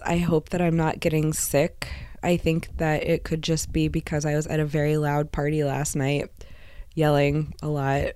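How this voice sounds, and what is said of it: Hoarse, strained, fading voice. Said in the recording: “I am losing my voice ... I sound like this now”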